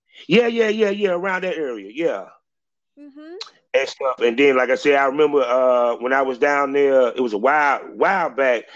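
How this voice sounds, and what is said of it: Southern US country accent. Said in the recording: “you have a country accent ... I'm a country boy ... Straight North Cackalack”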